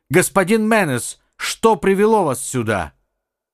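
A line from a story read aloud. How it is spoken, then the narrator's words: Shouted. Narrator (Russian): Сальватор крикнул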